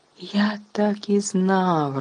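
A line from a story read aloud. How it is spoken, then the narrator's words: Joyful exclamation. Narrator (Ukrainian): радісно вигукнув Стен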